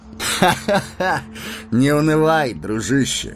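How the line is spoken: Laughing. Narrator (Russian): рассмеялся Арагорн

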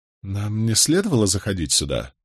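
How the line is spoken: Whispered question. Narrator (Russian): шепотом осведомился я у Барака

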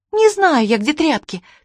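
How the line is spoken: Angry exclamation. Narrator (Russian): в сердцах воскликнула Чермейн

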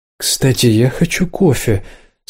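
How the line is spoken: Focused mutter. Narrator (Russian): сосредоточенно пробормотал Ник

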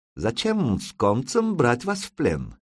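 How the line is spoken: Soft lisping accent. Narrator (Russian): произнес он с мягким, шепелявящим акцентом

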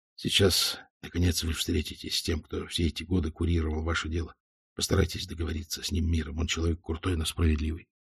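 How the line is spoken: Whisper. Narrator (Russian): Следователь, сопровождавший Валенберга, шепнул

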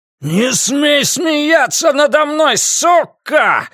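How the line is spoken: Roaring. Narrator (Russian): взревел Дули

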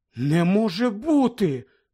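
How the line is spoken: Shocked exclamation. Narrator (Ukrainian): вражено вигукнула Герміона

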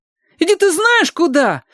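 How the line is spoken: Loud, feigned indignant yell. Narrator (Russian): завопил Костя, стараясь громкостью скрыть ненатуральность возмущения

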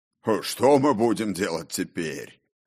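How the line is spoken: Smug chuckle, booming bass. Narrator (Russian): Самодовольно хохотнул обладатель звучного баса

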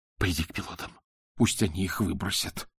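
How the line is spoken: Whisper. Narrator (Russian): прошептал он

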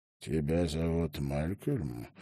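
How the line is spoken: Hoarse deep male voice. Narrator (Russian): голос у джентльмена был хриплый и глубокий

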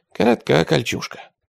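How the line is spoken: Mumbled. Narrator (Russian): пробормотал Лука

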